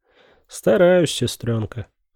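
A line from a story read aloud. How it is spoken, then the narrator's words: Breathed out. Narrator (Russian): выдохнул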